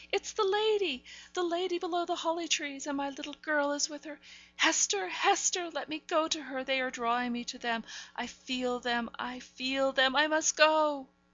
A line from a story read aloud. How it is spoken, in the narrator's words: cried Miss Rosamond